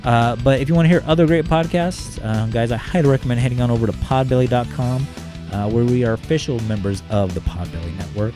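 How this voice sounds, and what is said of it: Strained, worn-out voice. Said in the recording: “losing my voice ... my voice is running out”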